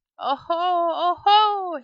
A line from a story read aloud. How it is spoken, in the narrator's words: he cried